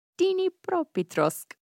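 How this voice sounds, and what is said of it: Put-on Ukrainian accent. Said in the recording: “I feel like I'm just doing a racist caricature of a Ukrainian accent. ... it's hitting my ear right”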